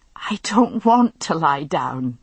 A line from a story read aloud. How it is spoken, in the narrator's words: she gasped